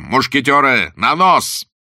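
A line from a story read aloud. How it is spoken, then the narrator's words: Thunderous shout. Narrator (Russian): Блад закричал громовым голосом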